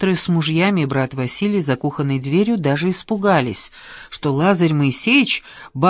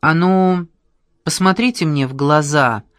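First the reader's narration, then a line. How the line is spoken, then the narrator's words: Menacing command. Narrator (Russian): велел он бабушке Груши страшным голосом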